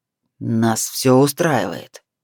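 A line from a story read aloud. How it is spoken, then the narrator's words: Venomous through teeth. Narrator (Russian): ядовито процедил Миналий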